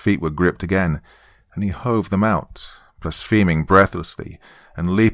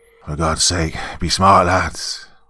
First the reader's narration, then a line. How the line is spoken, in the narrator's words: roared the captain